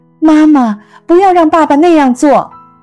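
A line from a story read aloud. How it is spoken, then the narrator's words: Crying out. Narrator (Chinese): 但是她随后又哭喊着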